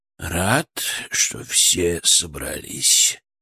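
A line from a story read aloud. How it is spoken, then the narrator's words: Unctuous, enveloping. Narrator (Russian): начал он елейным, обволакивающим голосом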